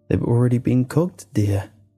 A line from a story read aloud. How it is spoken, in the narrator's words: she said in a crackling, uneven tone